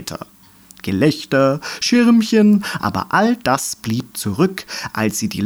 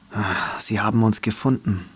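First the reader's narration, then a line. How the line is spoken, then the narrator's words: Whispered. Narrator (German): flüsterte Meckermähne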